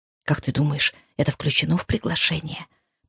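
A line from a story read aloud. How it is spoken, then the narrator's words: Hissed. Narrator (Russian): прошипела миссис Джонсон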